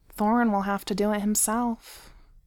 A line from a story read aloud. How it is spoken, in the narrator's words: Beaufort said sadly